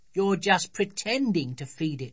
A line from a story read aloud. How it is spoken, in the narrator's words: said Sophie scornfully